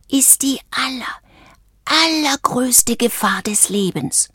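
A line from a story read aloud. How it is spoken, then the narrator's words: Whispering. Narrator (German): flüsterte Valentino Isabella zu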